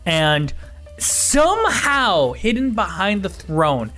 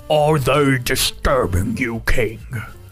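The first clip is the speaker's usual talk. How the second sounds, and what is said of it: Bellowing deep character voice. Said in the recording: “a bellowing deep voice go”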